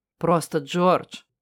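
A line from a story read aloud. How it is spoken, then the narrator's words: Very tired smiling man. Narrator (Russian): улыбнулся мужчина очень устало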